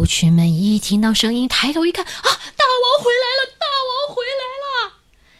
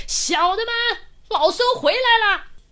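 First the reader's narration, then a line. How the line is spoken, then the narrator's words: Loud shout. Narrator (Chinese): 猴王一看到他们，高声大喊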